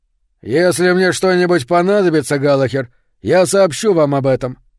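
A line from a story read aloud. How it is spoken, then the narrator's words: Growl. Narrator (Russian): прорычал сержант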